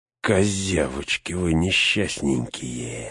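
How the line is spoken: Hissed. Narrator (Russian): зашипел Грышнак

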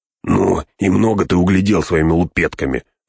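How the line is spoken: Snapping. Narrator (Russian): огрызнулся другой

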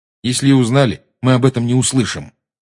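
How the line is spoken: Angry. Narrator (Russian): сердито сказал Гарри

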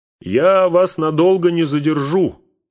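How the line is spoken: Shouting. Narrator (Russian): прокричал Бильбо

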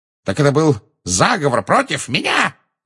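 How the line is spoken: Yelling. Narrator (Russian): завопил он

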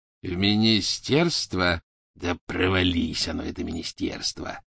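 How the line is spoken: Growled. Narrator (Russian): прорычал Сивый

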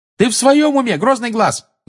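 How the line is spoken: Yelling. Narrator (Russian): заорала Тонкс

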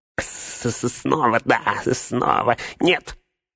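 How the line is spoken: Shrieked. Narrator (Russian): взвизгнул Горлум

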